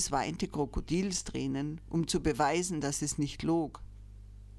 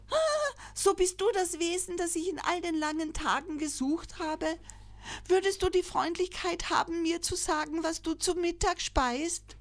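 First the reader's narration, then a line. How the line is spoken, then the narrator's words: Joyful call. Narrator (German): rief freudig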